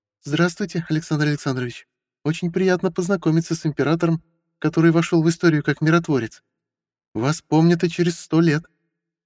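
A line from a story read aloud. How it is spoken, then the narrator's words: Cheerful. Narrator (Russian): весело сказала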